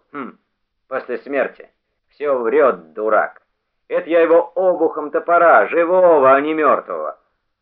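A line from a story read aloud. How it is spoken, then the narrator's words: Loud, malicious. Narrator (Russian): Нечаев злобно усмехнулся и вдруг громко сказал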